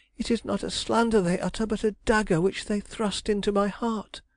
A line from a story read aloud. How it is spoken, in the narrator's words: she cried